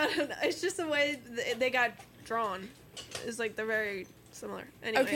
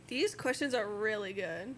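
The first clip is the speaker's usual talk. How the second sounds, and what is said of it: Sarcastic tone. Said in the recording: “Are you being sarcastic? ... I was a little bit, yeah.”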